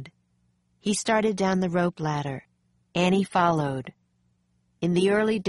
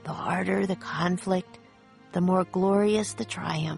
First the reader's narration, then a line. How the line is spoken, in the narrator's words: Jack whispered